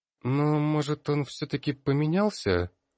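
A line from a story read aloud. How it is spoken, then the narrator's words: Timid voice. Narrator (Russian): Вновь робко подала голос Виолар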